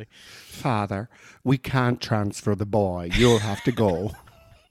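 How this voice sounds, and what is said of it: Put-on Irish accent. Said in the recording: “they had an Irish accent, didn't they?”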